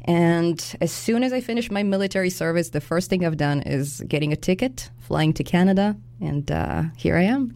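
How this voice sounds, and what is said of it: Noticeable foreign accent. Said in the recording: “I hear a beautiful accent.”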